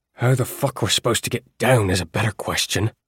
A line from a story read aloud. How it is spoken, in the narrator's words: he growled